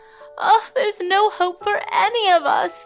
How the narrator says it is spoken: wailed another woman who was clearly also suffering from the flu

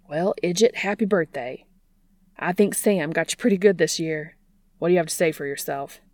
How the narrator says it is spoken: Bobby asked

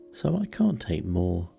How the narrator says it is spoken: Alice replied in an offended tone

